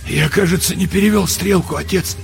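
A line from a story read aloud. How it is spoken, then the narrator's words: Husky voice. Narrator (Russian): сказал он сипло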